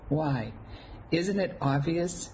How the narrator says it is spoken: I sighed

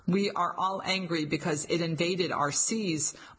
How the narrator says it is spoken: Marchionese said

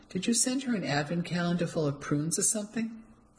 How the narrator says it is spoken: laughed, still rattled but grateful

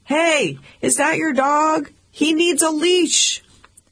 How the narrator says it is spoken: shouted

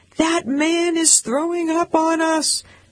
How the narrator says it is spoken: People around him started screaming

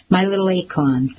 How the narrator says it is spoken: my father called us

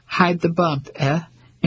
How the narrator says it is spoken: And she chuckled

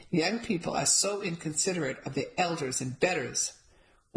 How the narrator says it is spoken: Once she calmed down enough to understand my explanation, she snorted and announced

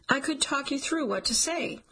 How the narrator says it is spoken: he insists

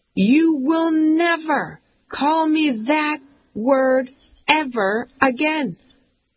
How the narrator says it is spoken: she yells

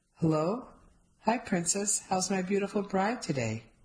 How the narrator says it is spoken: My husband's sexy voice

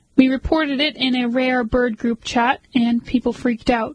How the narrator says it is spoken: Huff says

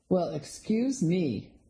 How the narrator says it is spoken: the man sneered

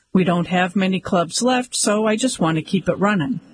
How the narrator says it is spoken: said Santiago

